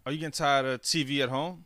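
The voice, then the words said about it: Commercial announcer-style delivery. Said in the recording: “you sound like a commercial”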